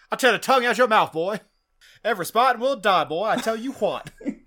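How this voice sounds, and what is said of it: Put-on Cajun accent. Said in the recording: “like, Cajun accent”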